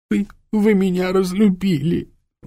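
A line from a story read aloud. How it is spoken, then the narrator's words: Sobbing. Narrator (Russian): всхлипнула она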